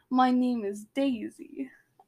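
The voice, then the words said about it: Bad attempt at Russian accent. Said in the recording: “that's your Russian accent?... Your Russian accent, it is terrible.”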